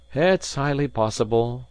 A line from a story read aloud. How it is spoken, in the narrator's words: said, sighing